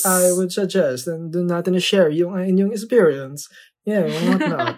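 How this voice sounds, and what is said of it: Put-on Italian accent. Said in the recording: “What's with the accent? ... I'm turning into an Italian. Mamma mia”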